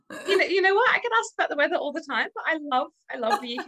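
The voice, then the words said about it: Australian accent, slightly British-tinged. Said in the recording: “were you obviously Australian ... I've been told my accent isn't quite British yet”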